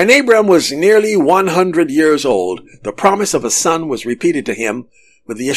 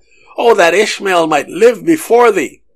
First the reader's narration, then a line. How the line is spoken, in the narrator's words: In his affection for his son, he exclaimed